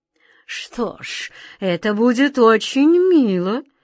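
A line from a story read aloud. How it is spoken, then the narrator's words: Tender, languid voice. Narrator (Russian): разнеженным голосом проговорил король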